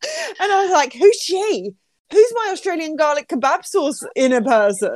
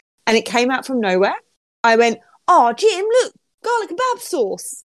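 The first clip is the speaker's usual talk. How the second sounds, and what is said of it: Put-on Australian accent. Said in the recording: “that's my Australian accent ... Oh, not bad. Not bad.”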